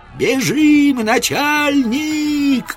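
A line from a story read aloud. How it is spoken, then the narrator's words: Shouting. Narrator (Russian): кричал пророк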